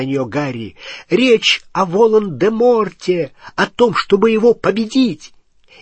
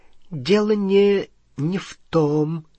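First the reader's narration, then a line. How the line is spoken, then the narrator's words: Ghost's mutter. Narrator (Russian): пробормотало привидение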